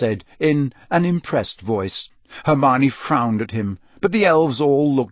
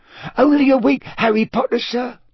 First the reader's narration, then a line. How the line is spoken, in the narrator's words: said Dobby happily